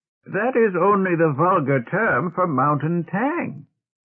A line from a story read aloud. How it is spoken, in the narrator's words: Tomas said impatiently